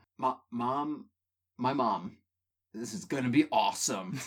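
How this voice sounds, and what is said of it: Mario character voice impression. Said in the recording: “my Mario impression”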